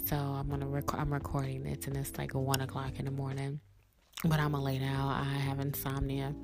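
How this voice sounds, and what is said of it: Late-night radio voice. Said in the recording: “I definitely have my radio voice on tonight because I am recording at night”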